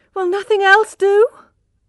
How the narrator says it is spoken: cried Tess in despair

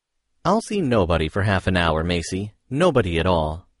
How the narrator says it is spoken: said the boss

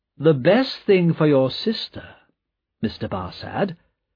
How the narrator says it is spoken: said Carton smoothly

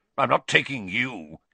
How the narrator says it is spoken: he snarled

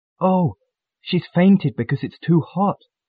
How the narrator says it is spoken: gasped Mandy

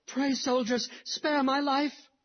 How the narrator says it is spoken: cried a boy of 12

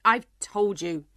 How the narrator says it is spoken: the King said crossly

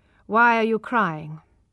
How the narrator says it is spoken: he asked coldly

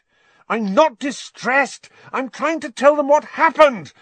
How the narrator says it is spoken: Harry said furiously

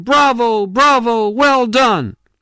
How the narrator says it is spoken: old Chong, who was beaming and shouting

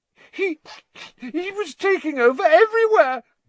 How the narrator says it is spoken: gasped

